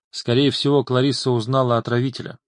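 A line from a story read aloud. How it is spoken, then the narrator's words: Plain. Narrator (Russian): сказал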